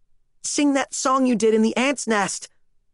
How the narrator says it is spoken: she pleaded

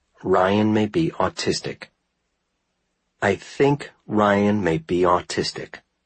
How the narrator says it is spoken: he said slowly

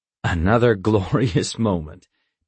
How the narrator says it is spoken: Dad chuckles

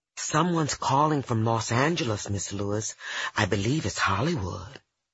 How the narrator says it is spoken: softly whisper

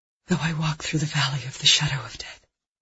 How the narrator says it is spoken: she heard herself whisper

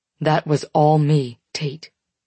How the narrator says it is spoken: he says firmly

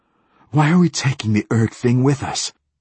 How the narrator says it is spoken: gasped Hoyt

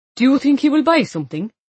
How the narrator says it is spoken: Neil said loudly

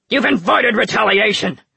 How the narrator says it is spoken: June snapped

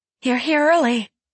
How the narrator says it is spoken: cried

